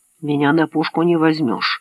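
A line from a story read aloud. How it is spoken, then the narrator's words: Grumbling mutter. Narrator (Russian): пробурчал Мэтт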